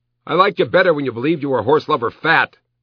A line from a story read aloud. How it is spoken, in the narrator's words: Kevin yelled